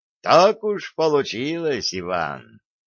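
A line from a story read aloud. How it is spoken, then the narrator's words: Good-natured chuckle. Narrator (Russian): Аксалтаков добродушно хмыкнул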